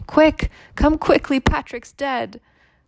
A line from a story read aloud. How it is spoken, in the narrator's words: she cried to him